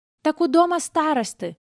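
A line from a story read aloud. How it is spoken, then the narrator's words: Bold boy shouting. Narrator (Russian): выкрикнул самый смелый мальчонка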